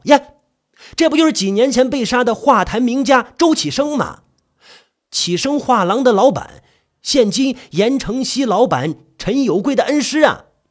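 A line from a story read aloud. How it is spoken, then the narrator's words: Loud clamoring. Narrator (Chinese): 有眼力的玩家定睛一看，嚷嚷道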